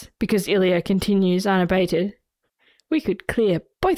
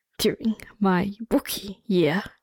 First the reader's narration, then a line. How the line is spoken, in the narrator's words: Ilya gasps out